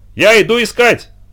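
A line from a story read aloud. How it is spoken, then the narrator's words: Shouting. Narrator (Russian): крикнула она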